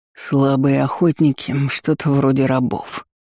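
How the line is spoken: Angry, through gritted teeth. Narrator (Russian): зло процедил Бран

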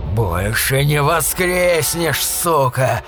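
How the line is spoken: Growling werewolf. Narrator (Russian): прорычал оборотень

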